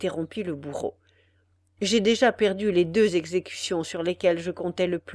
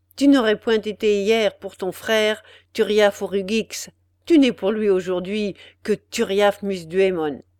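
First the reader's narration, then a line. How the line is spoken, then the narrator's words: Harsh. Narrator (French): ajouta-t-il durement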